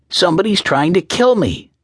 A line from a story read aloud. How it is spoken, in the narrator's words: he suddenly blurted out